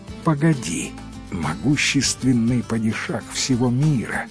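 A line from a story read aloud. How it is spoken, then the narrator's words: Flattering whisper. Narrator (Russian): льстиво зашептал падишаху визирь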